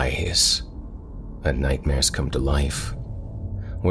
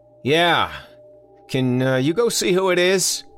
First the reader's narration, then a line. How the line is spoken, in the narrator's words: he yelled back